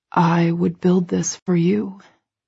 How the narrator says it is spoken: he whispers

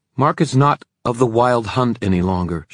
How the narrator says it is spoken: said hotly

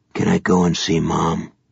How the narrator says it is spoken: Softly, just for Gansey, he asked

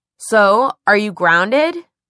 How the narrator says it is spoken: Simon asked a little too loudly

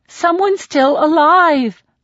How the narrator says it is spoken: I plead

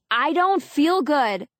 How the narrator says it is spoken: The music back here is louder and I'm yelling

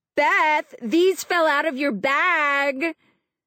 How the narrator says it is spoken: Lindsay was screaming

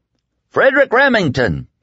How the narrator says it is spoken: he bellowed at the top of his lungs

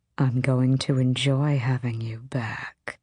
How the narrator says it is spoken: he purred

